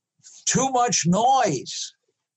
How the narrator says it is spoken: yelled

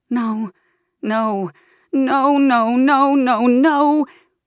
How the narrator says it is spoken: We scream screams that no one hears, howl like wolves denied the moon

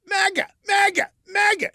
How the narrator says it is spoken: Burke yelled

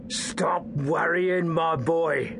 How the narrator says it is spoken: Garen rasped in a menacing tone

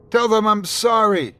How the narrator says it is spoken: a voice cried out in front of me

